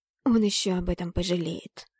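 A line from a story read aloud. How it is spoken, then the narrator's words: Hissed under breath. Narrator (Russian): прошипела под нос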